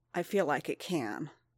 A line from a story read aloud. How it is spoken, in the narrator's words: Din said, through gritted teeth